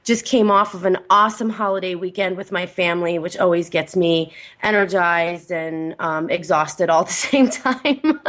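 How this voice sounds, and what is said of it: Unwell, unusual-sounding voice. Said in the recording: “I am feeling a little bit under the weather today, so my voice is a little bit unusual”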